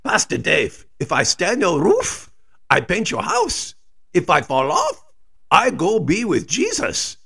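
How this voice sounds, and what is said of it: Thick German accent. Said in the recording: “He had a thick German accent”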